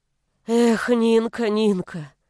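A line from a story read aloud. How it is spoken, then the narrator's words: Sighing. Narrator (Russian): вздохнула тетя Валя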